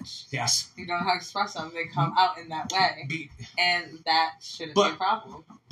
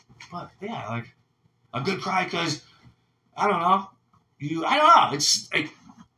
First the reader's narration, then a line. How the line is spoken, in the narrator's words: they cried